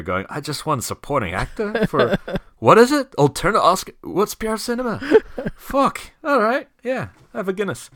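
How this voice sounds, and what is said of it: Bad put-on Irish accent. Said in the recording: “That was the worst Irish accent ever.”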